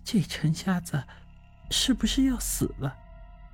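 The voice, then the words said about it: Quiet, hushed speech. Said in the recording (Chinese): “小声的说道”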